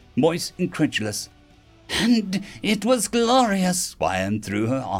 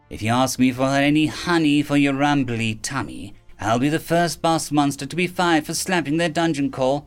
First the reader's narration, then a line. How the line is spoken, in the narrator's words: Wyan said dryly